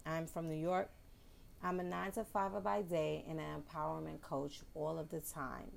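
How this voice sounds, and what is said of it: New York accent. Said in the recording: “you will hear my New York slang, my New York accent”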